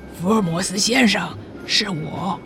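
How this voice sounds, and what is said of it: Low, hushed voice. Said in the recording (Chinese): “看报的乘客低声地说”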